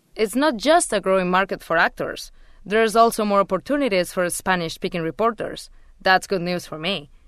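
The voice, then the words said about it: Castilian Spanish accent. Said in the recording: “I have a Castilian accent, so even my Spanish sounds different from the Spanish we usually hear in the US. I guess I'll always have an accent”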